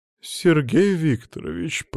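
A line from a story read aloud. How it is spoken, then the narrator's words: Drawn-out. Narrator (Russian): протянула алхимичка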